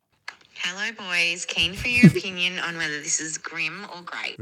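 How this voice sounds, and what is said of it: Creepy-sounding voice. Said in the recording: “Very like creepy, creepy voice as well.”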